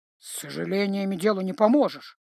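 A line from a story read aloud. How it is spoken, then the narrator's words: Agreeing mutter. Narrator (Russian): согласно буркнул Грым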